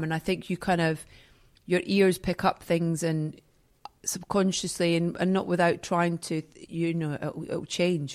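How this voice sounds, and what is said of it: Softened Scottish accent. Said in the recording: “You still kept your accent ... my accent's definitely softer ... being away from Scotland is losing my accent”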